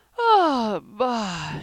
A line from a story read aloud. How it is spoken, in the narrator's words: she yawned